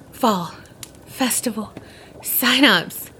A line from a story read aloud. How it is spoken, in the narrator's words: Finally, after what seemed like forever, swallowed the bite, and then he gasped out